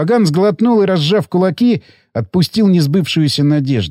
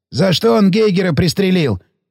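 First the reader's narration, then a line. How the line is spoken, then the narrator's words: Inquiring. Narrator (Russian): поинтересовался Сиплый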